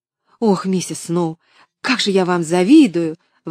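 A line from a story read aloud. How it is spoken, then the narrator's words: Exclaimed. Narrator (Russian): воскликнула Поллианна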